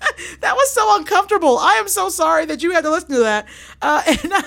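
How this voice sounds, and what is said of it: Usual voice. Nothing is said of it.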